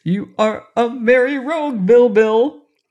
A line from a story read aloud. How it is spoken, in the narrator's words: laughed the king